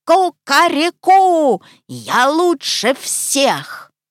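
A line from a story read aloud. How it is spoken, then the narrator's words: Loud squawking shout. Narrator (Russian): крикнул гусь гаркнул во все пеликанье горло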